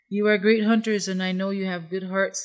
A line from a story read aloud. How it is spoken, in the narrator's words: said the coyote